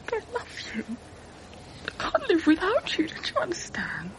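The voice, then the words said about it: Tearful, emotional pleading voice. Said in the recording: “getting emotional ... dry your eyes”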